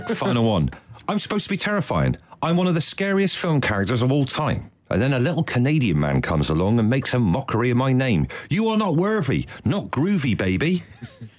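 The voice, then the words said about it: Put-on West Country accent. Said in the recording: “Even the West Country accent couldn't throw him off.”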